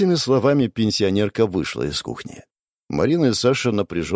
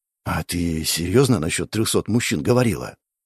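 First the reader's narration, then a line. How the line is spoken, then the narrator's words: Whispered question. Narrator (Russian): спросил Саша шепотом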